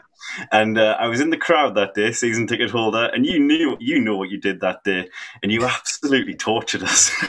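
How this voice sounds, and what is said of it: Sunderland English accent. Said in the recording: “I'm from Sunderland, if you can tell by the accent.”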